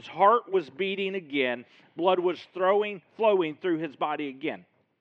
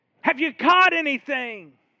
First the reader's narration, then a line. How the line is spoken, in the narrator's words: He shouts